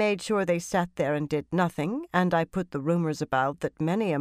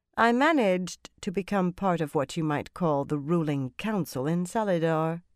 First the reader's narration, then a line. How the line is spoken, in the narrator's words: the Grey said calmly